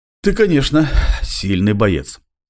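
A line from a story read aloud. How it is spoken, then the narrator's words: Breathless exhale. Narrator (Russian): выдохнул Джек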